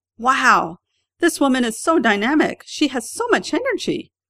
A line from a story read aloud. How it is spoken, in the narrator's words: they turn to their friends and exclaim